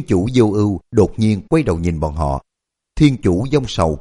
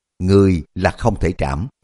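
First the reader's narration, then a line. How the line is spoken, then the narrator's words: Gentle, after pause. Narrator (Vietnamese): Sau một lúc lâu, Thiên Chủ Ly Hận mới nhẹ nhàng lắc đầu nói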